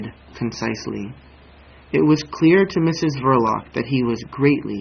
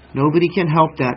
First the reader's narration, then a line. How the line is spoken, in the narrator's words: she said